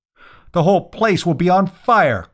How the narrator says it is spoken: cried Eustace

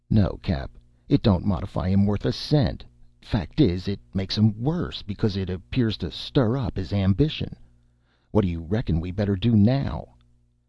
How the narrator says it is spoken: Thompson said with a sigh

